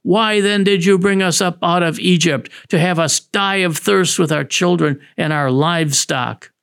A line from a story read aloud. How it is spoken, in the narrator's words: in their thirst for water, the people grumbled, saying